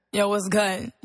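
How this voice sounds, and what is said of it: Put-on Brooklyn New York accent. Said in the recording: “you're from Brooklyn, New York. So ... where's the accent at?”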